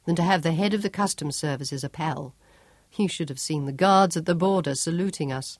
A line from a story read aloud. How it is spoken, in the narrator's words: Job chuckled